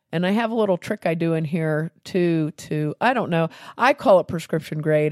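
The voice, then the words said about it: Congested voice from a cold. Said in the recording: “Today I have a cold ... if my voice sounds bad, I apologize in advance”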